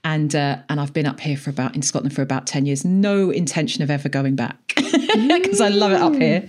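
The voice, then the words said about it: London-area English accent. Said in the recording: “originally from just outside London, obviously by my accent”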